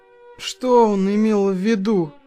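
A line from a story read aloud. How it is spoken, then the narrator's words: Tired. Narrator (Russian): устало проговорил Мик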